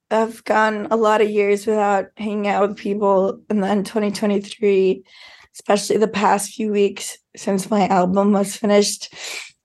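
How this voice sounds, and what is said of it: Hoarse, strained voice. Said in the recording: “sorry about your voice. You lost your voice, yeah? ... Yeah, I lost my voice.”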